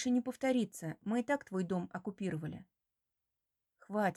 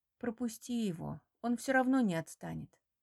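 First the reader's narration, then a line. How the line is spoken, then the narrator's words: Tired. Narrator (Russian): говорю устало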